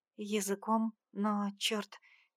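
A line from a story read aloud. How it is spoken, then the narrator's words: Quiet exhale. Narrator (Russian): выдохнула тихо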